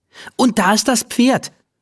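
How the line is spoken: Called out. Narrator (German): ruft sie

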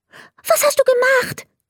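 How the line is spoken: Very excited question. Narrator (German): fragte ganz aufgeregt

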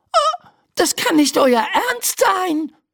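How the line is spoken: Shouting. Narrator (German): schreit Laura

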